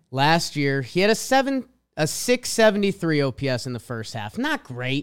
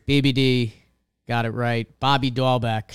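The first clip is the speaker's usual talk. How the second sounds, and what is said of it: Put-on Boston accent. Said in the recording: “you said it in an accent, and I'm not good with a Boston accent.”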